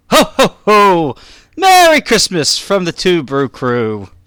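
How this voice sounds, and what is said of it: Jolly Santa Claus voice. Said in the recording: “if you need a Santa impersonator, just call up ... because that was excellent.”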